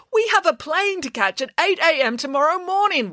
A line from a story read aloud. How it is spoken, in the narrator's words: wailed Mr